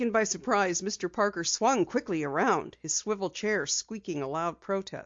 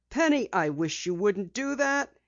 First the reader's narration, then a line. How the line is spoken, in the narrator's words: exclaimed